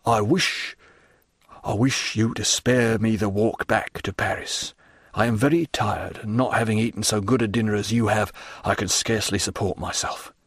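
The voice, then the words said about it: Low voice. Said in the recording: “The man said in a low voice”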